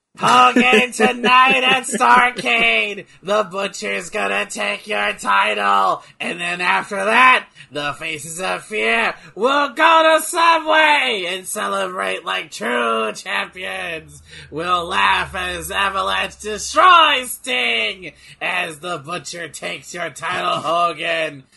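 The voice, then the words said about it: Imitates another person's voice, wrestling promo. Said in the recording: “my Kevin Sullivan impersonation”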